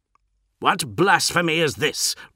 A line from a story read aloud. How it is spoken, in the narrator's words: roared a voice, suddenly loud and bold within the chamber